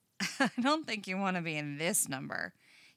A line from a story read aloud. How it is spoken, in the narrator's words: he laughs